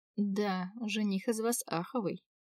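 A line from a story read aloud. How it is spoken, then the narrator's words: Dejected sigh. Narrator (Russian): вздохнула удрученно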